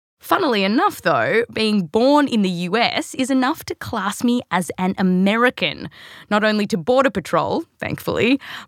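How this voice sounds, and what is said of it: Australian accent. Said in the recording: “because of this accent ... the accent's actually real, but I was born here, raised in Australia”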